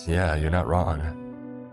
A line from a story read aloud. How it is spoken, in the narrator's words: I said with a chuckle